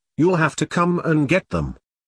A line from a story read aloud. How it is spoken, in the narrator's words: said firmly